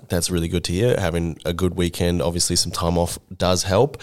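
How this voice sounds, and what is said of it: Hoarse, nearly lost voice. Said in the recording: “as you can hear, my voice is pretty much gone”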